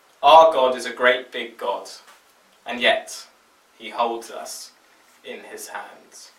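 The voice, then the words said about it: Australian accent. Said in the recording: “words with an Australian accent”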